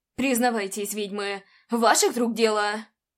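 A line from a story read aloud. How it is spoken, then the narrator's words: Growled. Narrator (Russian): Прорычал он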